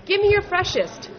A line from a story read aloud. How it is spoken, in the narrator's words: customers shouted